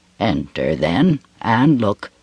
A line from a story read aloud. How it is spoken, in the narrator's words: said Father Wolf stiffly